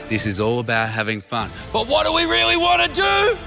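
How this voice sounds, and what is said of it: Louder, shouted pep-talk delivery. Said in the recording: “say it louder,”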